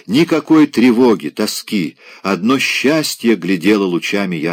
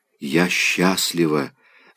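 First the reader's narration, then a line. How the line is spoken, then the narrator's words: Whisper. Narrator (Russian): слышит он ее шепот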